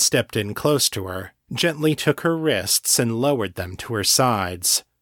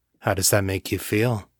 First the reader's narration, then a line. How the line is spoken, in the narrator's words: asked, his voice low and husky